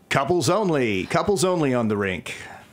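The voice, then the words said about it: Roller rink announcer voice. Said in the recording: “You were going to give us a special announcer voice”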